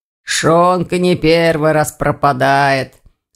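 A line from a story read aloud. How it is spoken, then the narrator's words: Hoarse deep bass. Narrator (Russian): хрипло пробасил староста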